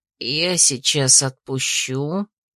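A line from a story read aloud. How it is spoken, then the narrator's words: Quiet. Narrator (Russian): тихо сказал он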